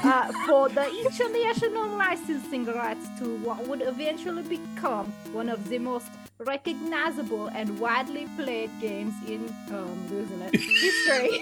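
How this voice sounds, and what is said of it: Poor put-on accent with Austrian hints. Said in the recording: “there was hints of Austrian in there ... it's not a good accent”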